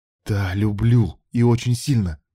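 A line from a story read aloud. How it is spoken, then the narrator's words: Hissed in face. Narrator (Russian): прошипел ей в лицо Илья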